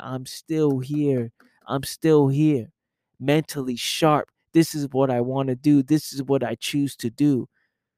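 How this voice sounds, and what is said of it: Tired, low-energy voice. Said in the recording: “I am tired as hell. And you can hear it. You can hear it in my voice. You can feel it in my energy.”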